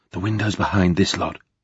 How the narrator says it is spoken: Gabriel whispered

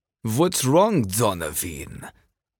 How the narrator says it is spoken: He sneered the name

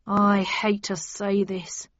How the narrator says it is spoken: began the bellman sadly

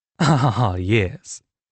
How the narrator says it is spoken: Melissa laughed sarcastically

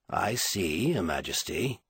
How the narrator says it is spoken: Clarake said calmly

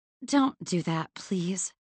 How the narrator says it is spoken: muttered weakly

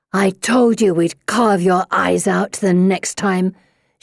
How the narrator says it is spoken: growls

